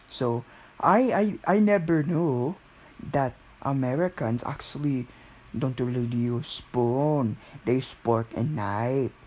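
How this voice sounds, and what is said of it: Filipino accent. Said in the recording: “have that Filipino accent”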